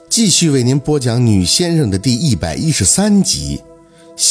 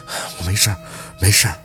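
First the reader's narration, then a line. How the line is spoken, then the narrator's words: Soft, muffled. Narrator (Chinese): 凤年的脸埋在宝四的腿上，嘴里轻声的应着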